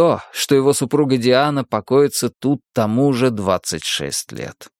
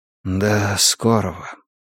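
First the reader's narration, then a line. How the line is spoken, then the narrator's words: Whisper. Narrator (Russian): прошептал я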